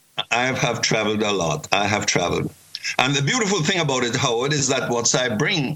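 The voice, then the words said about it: Slight Jamaican Caribbean accent. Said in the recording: “I detect from your accent there is a bit of what I think is Caribbean there. ... Jamaican. I'm a Jamaican.”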